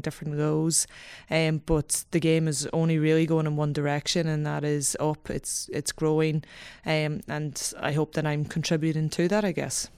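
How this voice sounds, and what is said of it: Irish Donegal accent. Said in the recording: “the accent is a giveaway from Donegal”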